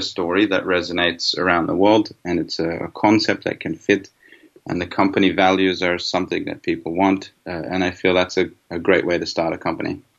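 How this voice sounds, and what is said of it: Hybrid Australian-Swedish accent. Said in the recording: “He's an Australian based in Sweden, and I can hear a bit of a hybrid accent ... your accent is different to perhaps what it was before you left”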